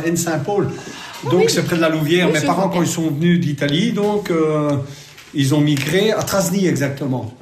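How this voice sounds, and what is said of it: Italian-tinged Charleroi Belgian French accent. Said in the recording (French): “Un accent typique. ... Carolo, peut-être. ... Mais italien, Carolo.”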